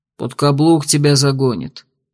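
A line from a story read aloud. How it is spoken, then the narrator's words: Knowing tone. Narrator (Russian): знающим тоном добавил Тонс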